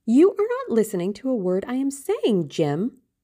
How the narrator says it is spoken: cried Sybil

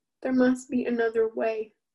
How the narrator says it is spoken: Sonara sobbed

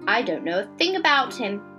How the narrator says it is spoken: snapped Mary

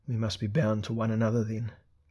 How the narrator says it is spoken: Elric murmured despairingly

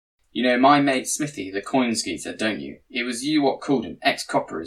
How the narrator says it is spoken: he said

